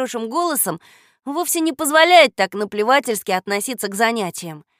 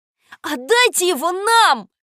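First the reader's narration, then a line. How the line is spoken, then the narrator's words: Shout. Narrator (Russian): закричал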